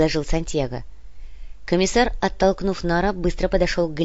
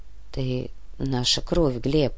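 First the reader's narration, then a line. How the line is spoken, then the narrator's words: Whisper. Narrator (Russian): прошептал Нур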